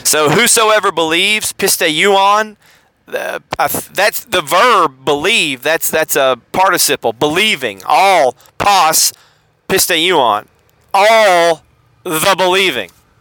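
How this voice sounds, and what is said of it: Southern American accent. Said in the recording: “in my southern accent”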